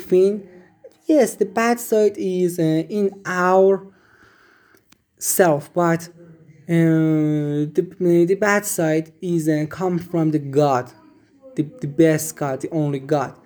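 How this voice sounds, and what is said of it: Strong non-native English accent. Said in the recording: “my very bad accent”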